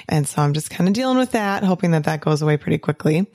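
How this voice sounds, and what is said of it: Hoarse, raspy voice. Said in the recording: “my voice is a little hoarse. It's a little bit raspy”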